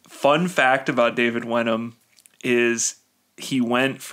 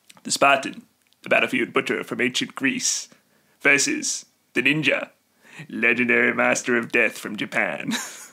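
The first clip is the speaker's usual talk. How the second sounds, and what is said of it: Impression of David Wenham's narrator voice. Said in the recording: “I'm going to try to do the David Wenham voice ... That narrating voice”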